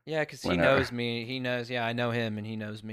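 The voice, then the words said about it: Baltimore accent. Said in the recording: “You had a Baltimore accent there”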